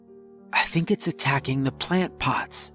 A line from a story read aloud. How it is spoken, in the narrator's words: Abby whispered